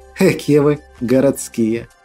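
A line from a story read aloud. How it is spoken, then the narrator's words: Cheered-up peasant woman snorting. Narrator (Russian): фыркнула слегка повеселевшая баба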